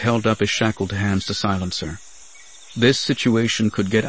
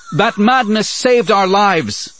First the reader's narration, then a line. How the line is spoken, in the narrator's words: Lucia shouted